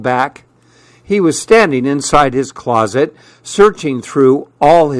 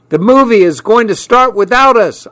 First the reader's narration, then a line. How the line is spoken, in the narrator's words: I yelled